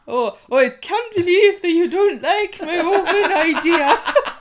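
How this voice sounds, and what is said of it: Weak put-on Scottish accent. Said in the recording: “I'm mocking myself for not being able to do a Scottish accent”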